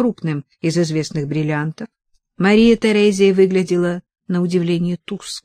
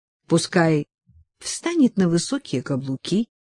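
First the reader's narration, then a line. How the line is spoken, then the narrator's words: Near-whisper reply. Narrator (Russian): ответила ей тоже почти шепотом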